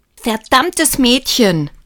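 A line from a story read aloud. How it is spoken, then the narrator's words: Angry shout. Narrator (German): schrie Lukas wütend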